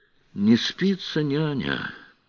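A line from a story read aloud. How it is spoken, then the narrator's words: Sighing. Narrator (Russian): вздохнул Сварог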